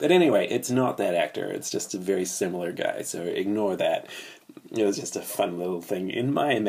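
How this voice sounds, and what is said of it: Usual voice. Nothing is said of it.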